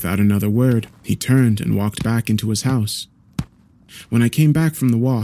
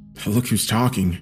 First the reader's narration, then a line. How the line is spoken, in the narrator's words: muttered